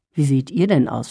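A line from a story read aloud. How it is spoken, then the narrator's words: Plain. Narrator (German): fragte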